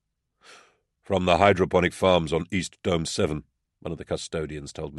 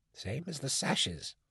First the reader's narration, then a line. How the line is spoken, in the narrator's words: Amos whispered in confidence